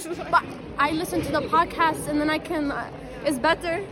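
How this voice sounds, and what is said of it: Thick foreign accent. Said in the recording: “she has a thick accent”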